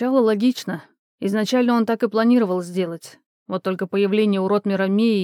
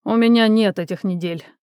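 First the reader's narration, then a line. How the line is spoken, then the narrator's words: Snorting. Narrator (Russian): хмыкнул Кром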